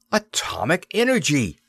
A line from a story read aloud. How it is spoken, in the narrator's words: Devon cried